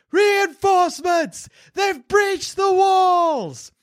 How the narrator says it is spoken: The screams echo rolling towards you, crying out

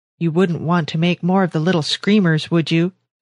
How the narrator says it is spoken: she said

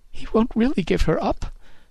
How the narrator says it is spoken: she sobbed

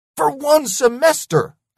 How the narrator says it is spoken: I yelled

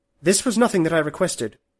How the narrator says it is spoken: she said

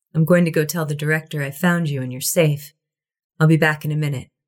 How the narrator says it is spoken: in the same flat voice said

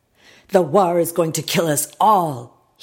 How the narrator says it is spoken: he yelled

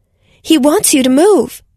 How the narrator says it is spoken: Anna shouted

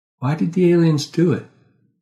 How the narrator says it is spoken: I sighed

